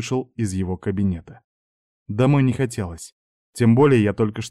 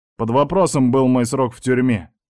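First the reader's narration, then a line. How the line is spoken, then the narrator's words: Bitter smirk. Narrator (Russian): усмехнулся зло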